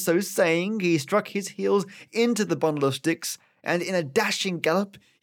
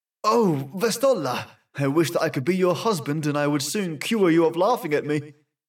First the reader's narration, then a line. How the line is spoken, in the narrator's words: exclaimed